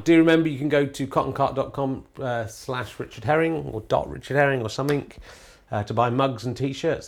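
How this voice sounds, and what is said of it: Strained voice, sore throat. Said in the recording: “My voice is really starting to hurt now. Um, I've got a bit of sore throat.”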